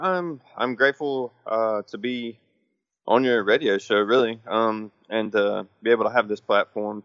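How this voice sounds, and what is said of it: Tired-sounding voice. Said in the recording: “You sound tired.”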